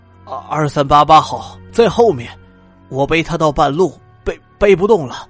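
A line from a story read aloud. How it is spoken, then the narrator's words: Shivering, stammering. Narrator (Chinese): 一八七五号满身泥浆，在大风里浑身打颤，结结巴巴的说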